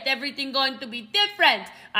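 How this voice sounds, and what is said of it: Brief put-on accent. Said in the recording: “I don't know what that accent was, okay?”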